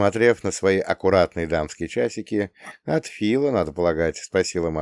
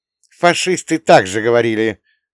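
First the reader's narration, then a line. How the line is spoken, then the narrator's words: Mother's dismissive snort. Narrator (Russian): фыркнула мама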